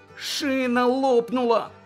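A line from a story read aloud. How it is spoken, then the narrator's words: Groaned. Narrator (Ukrainian): застогнав Джиммі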